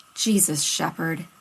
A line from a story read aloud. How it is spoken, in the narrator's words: Rodney finally grumbled